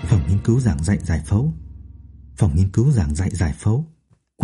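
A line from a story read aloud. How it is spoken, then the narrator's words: Hurried muttering. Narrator (Vietnamese): miệng lẩm bẩm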